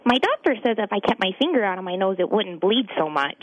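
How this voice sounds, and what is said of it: Ralph Wiggum impression, little boy voice. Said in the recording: “one more run as Ralph Wiggum from The Simpsons. This is the little boy that always ... police chief's son ... gets in trouble with Bart.”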